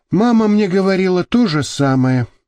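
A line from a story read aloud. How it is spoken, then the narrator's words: Sad. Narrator (Russian): грустно сказал Вася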